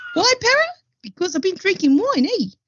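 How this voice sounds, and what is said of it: Exaggerated New Zealand Maori accent. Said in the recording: “which is in New Zealand for those who didn't get my accent just then ... I actually went a bit more Maori, a bit more like a big Maori guy then when I was with my accent. It wasn't very natural.”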